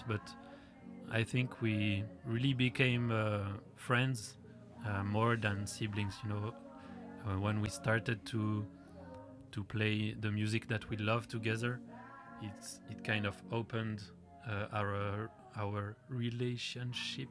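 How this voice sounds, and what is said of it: Non-native English accent. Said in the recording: “my English accent is terrible”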